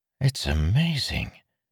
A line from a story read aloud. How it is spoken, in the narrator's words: Meryn whispered